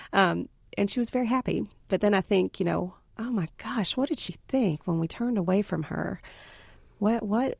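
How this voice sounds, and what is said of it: Southern American accent. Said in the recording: “With a Southern accent. ... Right, with a very Southern. I'm also incredibly Southern.”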